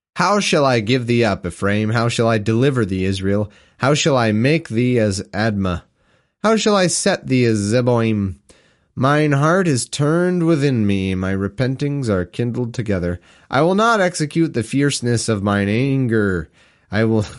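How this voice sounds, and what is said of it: Reading in a put-on accent. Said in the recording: “I had adopted an accent there for some reason”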